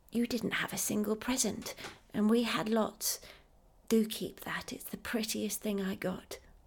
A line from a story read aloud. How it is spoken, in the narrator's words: whispering